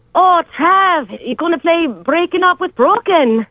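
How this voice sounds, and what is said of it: Put-on Irish accent, self-described terrible. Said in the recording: “introduce Breaking Up With Broken from Southpaw in your best Irish accent ... Terrible ... Oh, this is terrible.”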